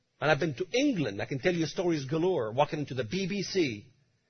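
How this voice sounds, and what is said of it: Speaks with a noticeable accent. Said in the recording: “I'm a nobody with an accent.”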